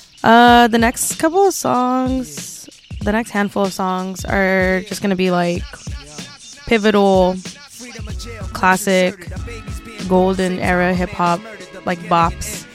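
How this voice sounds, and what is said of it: Slightly scratchy voice. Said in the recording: “My voice is a little scratchy today.”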